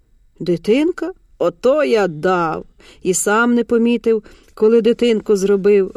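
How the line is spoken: Laughing. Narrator (Ukrainian): розсміявся Толя

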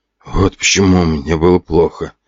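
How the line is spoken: Muttering realization. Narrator (Russian): бормотал тот

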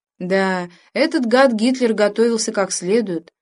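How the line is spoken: Sighing. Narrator (Russian): вздохнул спросивший

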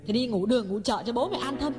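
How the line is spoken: Aggrieved cry. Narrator (Vietnamese): Ngọc uất ức kêu lên

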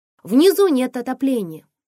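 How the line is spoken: Shouting over wind. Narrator (Russian): заорала я, перекрикивая ветер

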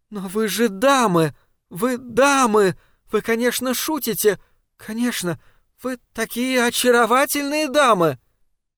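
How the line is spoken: Breathless disbelieving babble. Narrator (Russian): Все еще не способная поверить в то, что происходит, госпожа Тоба, задыхаясь, пролепетала

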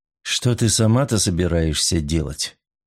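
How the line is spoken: Gentle, tender. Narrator (Russian): Вопрос прозвучал ласково

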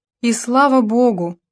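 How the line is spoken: Sighed. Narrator (Russian): вздохнула Келли

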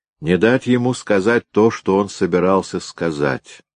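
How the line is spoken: Plain. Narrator (Russian): ответил Гойда

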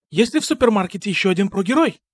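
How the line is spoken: Muttering. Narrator (Russian): Пробормотала Леди Гора

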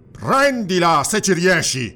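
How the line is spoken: Shouted. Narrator (Italian): gridò Conan

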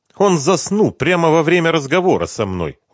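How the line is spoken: Indignant declaration. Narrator (Russian): возмущенно заявила она

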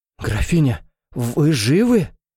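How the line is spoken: Frightened disbelieving babble. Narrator (Russian): Испуганно пролепетал солдат, не веря собственным глазам

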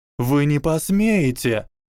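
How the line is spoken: Shrieked. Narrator (Russian): взвизгнула Трейси

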